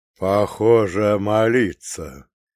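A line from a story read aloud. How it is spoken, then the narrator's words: Chuckling. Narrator (Russian): хохотнул вождь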